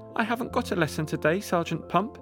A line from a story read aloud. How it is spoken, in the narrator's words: Candy Lee replied